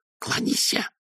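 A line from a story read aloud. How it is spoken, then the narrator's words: Hissed. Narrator (Russian): прошипел он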